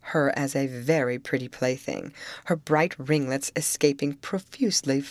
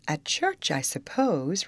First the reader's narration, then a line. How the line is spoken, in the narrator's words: replied she